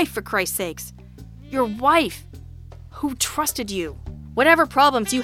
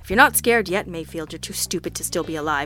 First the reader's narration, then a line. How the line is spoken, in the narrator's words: Jack growled